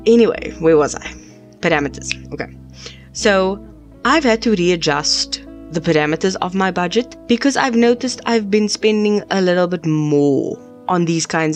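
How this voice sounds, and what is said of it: Sick voice with a cold. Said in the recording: “Sorry, I'm a bit sick... I've got a stress cold... sorry about my voice.”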